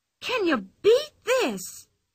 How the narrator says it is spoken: she cried suddenly

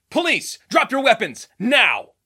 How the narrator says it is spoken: his dad shout

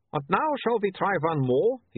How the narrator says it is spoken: he said brightly

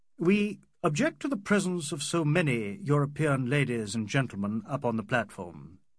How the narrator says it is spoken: he said in an Oxford voice

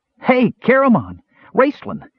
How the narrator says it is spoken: shouted in wild excitement

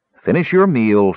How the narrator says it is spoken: she said in a stern voice

